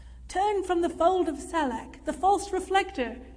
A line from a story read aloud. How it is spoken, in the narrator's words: a resonant voice boomed